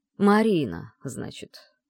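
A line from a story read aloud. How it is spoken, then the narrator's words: Drawling. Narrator (Russian): протянул этот жених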